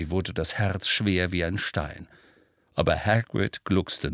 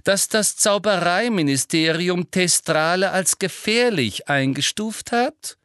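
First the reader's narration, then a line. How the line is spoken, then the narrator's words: Loud interruption. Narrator (German): unterbrach ihn Umbridge laut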